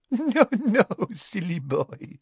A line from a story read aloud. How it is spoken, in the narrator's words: said Fleur with a tinkling laugh